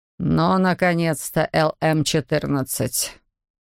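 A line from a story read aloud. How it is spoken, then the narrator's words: Through gritted teeth. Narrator (Russian): Процедил ВХ-55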